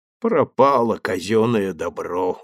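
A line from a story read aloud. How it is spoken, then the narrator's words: Dejected. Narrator (Russian): уныло сказал Федосеев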